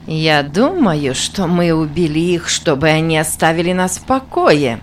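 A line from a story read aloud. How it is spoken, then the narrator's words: Mocking speech. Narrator (Russian): насмешливо сказала Минтака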